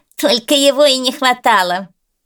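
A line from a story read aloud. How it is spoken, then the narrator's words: Mocking. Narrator (Russian): насмешливо сказал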